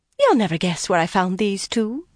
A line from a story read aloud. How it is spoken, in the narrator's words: Coriel said in her lilting Murandian accent